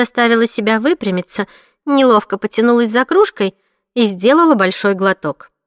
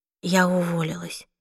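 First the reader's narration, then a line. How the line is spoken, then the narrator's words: Quiet. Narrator (Russian): тихо сказала она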